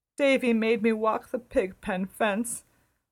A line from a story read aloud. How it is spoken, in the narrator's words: wailed Dora